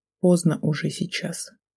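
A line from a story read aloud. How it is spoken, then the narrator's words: Quiet, choked reply. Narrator (Russian): проглотив острый ком, тихо ответил я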